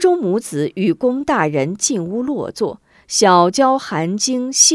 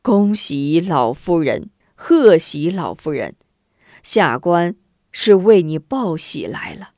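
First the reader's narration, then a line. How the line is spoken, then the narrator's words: Cheerful, chuckling. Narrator (Chinese): 龚大人笑呵呵，道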